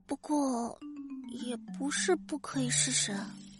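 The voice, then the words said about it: Very faint, tiny voice. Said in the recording (Chinese): “用细若蚊蝇的声音说”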